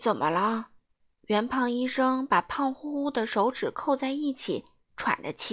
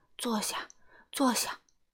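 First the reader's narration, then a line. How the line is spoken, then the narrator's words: Breathless. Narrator (Chinese): 圆胖医生又气喘吁吁地说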